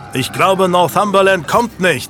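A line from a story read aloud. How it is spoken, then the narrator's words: Roaring over battle noise. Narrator (German): Jasper plötzlich neben sich über den Schlachtenlärm brüllen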